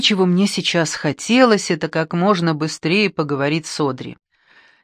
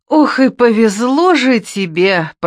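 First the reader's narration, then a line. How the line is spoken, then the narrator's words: Moaning. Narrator (Russian): простонала она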